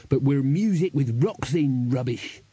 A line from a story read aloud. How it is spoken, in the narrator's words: snarled Crash